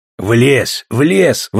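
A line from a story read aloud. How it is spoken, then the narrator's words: Excited growling dog. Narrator (Russian): возбужденно рычал пес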